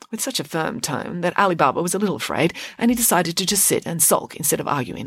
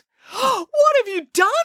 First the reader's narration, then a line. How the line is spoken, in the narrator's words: cried Alibaba